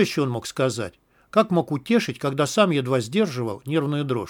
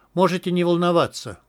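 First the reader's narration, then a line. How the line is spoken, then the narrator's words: Tired smiling reassurance. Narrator (Russian): устало улыбнулся хирург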